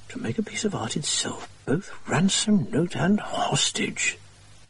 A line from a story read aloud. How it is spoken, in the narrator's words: muttered Watson